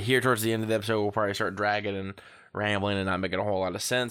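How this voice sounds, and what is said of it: Rough voice from a cold. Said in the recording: “My voice is a little rough. I was up all night coughing and I've been kind of battling a cold.”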